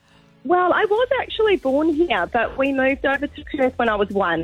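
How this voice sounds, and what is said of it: Slight Australian accent. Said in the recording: “a bit of an Australian accent”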